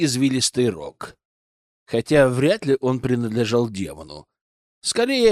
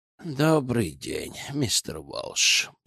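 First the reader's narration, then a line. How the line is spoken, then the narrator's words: Grumbling. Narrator (Russian): пробурчал Гельд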